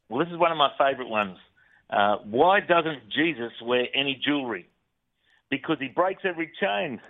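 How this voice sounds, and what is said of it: Australian accent. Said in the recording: “that Australian accent”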